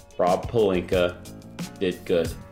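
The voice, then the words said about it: Very slow, deliberate speech. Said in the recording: “I'm going to say this really slowly.”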